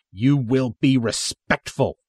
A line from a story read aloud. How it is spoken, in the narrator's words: the soldier snaps